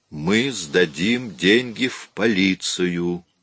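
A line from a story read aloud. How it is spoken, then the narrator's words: Slow and distinct. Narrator (Russian): медленно и отчетливо произнес Том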